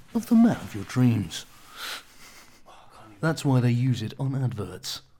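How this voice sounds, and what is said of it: Deep, velvety, seductive male voice. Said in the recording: “my really deep down sexy voice ... a voice like this velvety voice”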